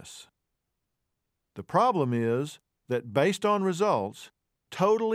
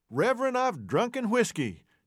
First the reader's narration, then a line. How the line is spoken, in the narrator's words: An old farmer stood up in front, moved by the invitation to confess, and exclaimed